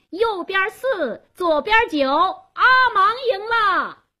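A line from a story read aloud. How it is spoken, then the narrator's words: Loud announcement. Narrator (Chinese): 贾斯东做公证人，他高声喊道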